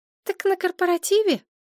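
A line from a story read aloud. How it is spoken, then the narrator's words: Squeak. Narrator (Russian): пискнула Машка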